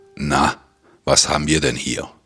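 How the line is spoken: Deep hissing growl. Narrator (German): knurrte, seine Stimme tief und zischend

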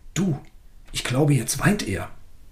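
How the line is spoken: Said quietly, excited. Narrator (German): aufgeregt, und leise sagte

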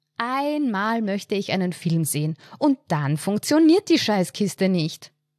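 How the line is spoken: Exclaimed dramatically. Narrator (German): rief sie dramatisch aus

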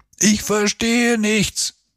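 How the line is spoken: Shouted. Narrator (German): schrie jetzt Simon

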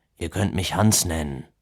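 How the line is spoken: Conciliatory murmur. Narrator (German): murmelte er als eine Art versöhnlichen Abschluss

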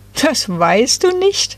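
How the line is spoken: Group giggling. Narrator (German): kicherten da die drei

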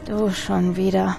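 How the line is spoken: Tired murmur. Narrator (German): murmelte er müde

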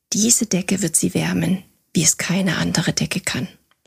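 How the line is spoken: Gentle voice. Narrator (German): sagte mit sanfter Stimme

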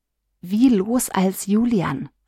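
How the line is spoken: Whisper in ear. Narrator (German): flüsterte Lia Johannes ins Ohr

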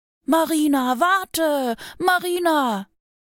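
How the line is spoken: Little bear calling. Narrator (German): rief der kleine Bär

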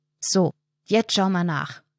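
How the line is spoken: Firm voice. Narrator (German): sagt Erik mit fester Stimme

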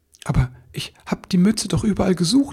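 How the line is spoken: Stammering. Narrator (German): stammelte er

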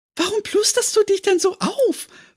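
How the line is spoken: Giggling question. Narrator (German): fragte sie kichernd

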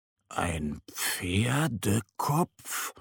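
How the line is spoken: Murmured. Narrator (German): murmelt Mo

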